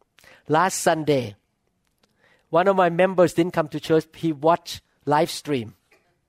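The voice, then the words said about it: Non-native English accent. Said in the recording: “I speak English with accent.”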